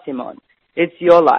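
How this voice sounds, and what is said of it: Put-on Lithuanian accent. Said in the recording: “do his bad Lithuanian accent”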